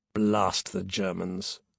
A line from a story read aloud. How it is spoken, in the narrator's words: Peter growled